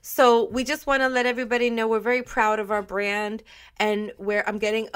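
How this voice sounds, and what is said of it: Voice cracking with emotion. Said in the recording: “you heard the crack in my voice.”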